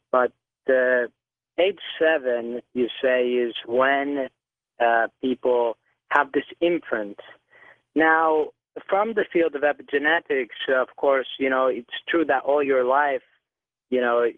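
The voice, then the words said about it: Noticeable foreign accent. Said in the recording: “I really hope that you guys can understand me over my accent.”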